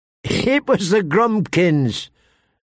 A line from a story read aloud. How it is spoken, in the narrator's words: Tyrion told him, laughing